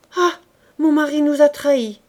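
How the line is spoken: Exclaimed. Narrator (French): s'écria la marquise

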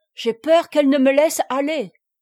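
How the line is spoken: Exclaimed. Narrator (French): s'écria le baron

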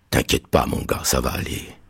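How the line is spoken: Whispered reply. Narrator (French): m'a répondu Madden en chuchotant

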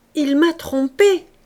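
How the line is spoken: Exclaimed. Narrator (French): s'écriait-elle

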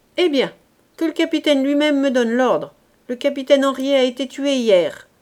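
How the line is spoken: Sneering. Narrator (French): ajouta-t-il en ricanant

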